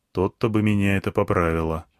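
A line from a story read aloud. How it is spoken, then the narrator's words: Grumbled mutter. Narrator (Russian): буркнул я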